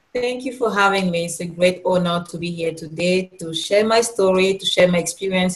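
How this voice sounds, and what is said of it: Cameroonian accent. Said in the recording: “Originally from Cameroon ... you have this beautiful accent”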